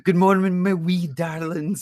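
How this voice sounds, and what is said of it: Imitated Scottish accent. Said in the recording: “love a good Scottish accent ... she's just got this fucking amazing accent”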